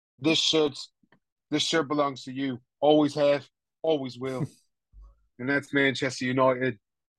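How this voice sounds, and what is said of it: Put-on British accent, poorly done. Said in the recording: “Sorry if you're British and I fucked your accent.”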